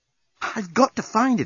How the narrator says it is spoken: exclaimed Nettie

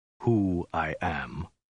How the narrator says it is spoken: said at length in a low, dead voice

